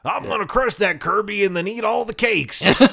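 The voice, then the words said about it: Cartoon rooster-like blustery Southern voice. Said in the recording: “King DDD sounded like Foghorn Leghorn, yes. basically. Just like,”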